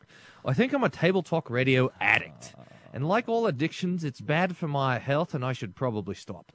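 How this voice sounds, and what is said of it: Put-on Australian accent. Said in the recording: “Chance to brush up on my Australian accent.”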